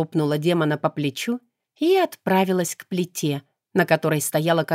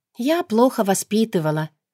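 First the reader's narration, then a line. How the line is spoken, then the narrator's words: Fake sigh. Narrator (Russian): вздохнула притворно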